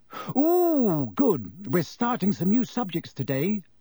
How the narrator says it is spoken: she said happily

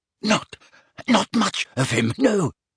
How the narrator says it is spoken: gasped Belby, his eyes streaming

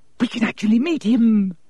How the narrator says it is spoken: Hermione squealed

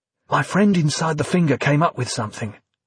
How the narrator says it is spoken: Dominic said quietly, despite the device

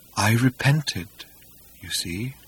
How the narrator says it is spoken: murmured dolefully

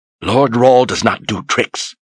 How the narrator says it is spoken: Haley snapped

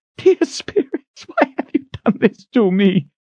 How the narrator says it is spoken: She cried in choking sobs

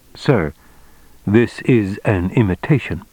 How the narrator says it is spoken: he said calmly

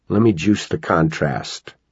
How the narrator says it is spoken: Terry muttered

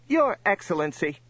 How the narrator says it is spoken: snapped the Tallnep

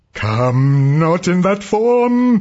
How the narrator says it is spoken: the priest screamed

